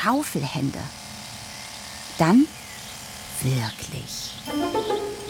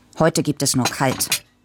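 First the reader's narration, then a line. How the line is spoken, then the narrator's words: Grumpy father. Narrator (German): sagte Papa brummig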